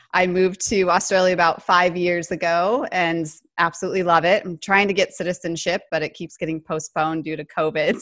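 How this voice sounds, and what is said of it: American accent. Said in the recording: “There's a funny accent on the end there... It's American accents for those of you that might think it's Canadian.”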